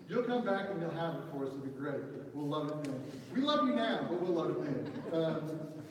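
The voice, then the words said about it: Southern US accent. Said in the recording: “I have this terrible one in Southern.”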